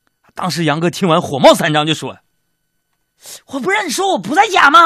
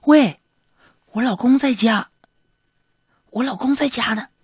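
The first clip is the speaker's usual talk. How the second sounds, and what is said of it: Quiet, hushed voice. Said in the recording (Chinese): “小声的说”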